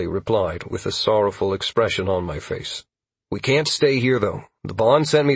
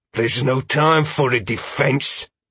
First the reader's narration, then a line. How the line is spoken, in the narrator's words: Jenkins said hotly